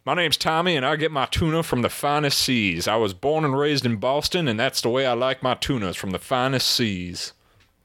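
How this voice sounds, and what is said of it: Put-on Texas accent. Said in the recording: “you sound like you're from Texas. ... Accent stuck.”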